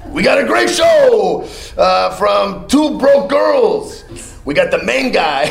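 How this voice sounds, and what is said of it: Impression of George Lopez. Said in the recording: “I did an impression of George Lopez when he had his talk show”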